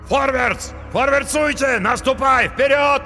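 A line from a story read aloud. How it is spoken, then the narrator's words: Many men yelling. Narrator (Russian): завопили наемники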